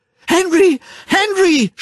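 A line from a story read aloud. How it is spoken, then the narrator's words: Shouted. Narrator (German): schrie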